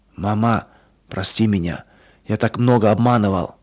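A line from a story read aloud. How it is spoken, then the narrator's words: Whispered. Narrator (Russian): он прошептал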